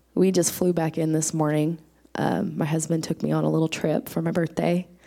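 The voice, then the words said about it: Hoarse, strained voice. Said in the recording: “my preacher voice today ... Some swollen tonsils.”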